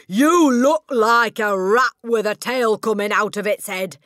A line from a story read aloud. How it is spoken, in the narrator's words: shouted